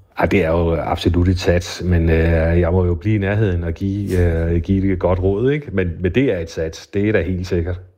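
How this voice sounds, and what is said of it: Funen Danish regional accent. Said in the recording (Danish): “din fynske accent ... kvider på fynsk”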